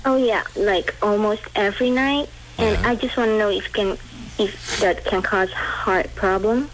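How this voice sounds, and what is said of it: Speaks with a noticeable accent. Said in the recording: “what's your accent? ... What is your accent from? Where is it from?”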